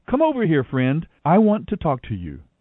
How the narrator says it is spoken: Boaz called out to him

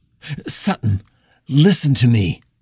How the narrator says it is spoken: she said, keeping her voice as steady as she was able

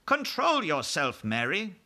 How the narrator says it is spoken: the Queen said sharply

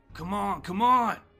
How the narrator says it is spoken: Steve gasping

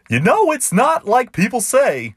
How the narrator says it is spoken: McGee sputtered at the man

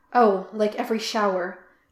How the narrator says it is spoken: Jim gasped

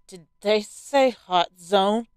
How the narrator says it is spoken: I asked bitterly

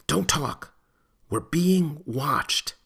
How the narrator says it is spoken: she spat out in a stage whisper

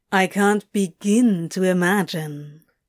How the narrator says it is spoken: Crowley purred

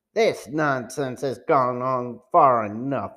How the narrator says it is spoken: man said angrily

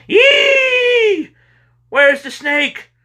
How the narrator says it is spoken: she screamed

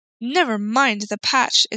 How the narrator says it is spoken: exclaimed the happy Woodman

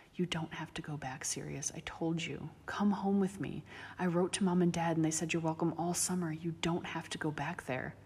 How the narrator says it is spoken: he could hear James whispering

